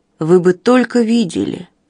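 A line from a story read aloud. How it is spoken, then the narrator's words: Sleepy mumble. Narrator (Russian): сонно пробормотала Линдси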